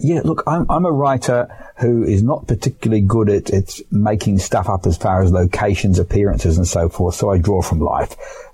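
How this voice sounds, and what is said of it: Australian accent. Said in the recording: “you're from Australia, as that accent would indicate”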